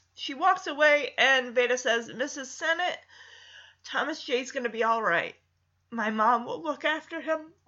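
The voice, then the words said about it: Choked-up, emotional voice. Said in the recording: “I'm getting a little choked up at that.”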